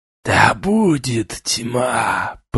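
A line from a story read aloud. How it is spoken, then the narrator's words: Hoarse croak. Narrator (Russian): прохрипел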